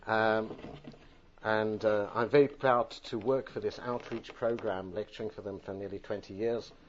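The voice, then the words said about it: British accent. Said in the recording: “I originally come from the UK. I'm sorry, my accent is part of my DNA.”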